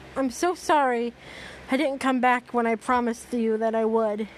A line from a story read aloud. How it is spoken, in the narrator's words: Ash cried, a fresh set of tears rolling down his face